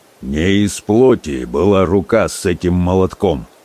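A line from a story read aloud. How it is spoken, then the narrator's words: Muffled, hollow voice. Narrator (Russian): глухо сказал кузнец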